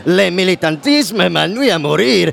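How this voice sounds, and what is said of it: Heavy put-on accent, hard to understand. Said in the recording (French): “on comprend rien là, vous pouvez pas le faire sans l'accent”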